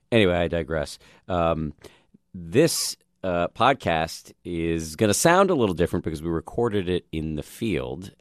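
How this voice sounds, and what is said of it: Slightly raspy voice. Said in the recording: “my voice is a little raspy today. I'm recovering from a cold”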